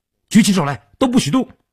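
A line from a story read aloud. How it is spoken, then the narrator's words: Loud threatening shout. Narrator (Chinese): 他们三个人大喊道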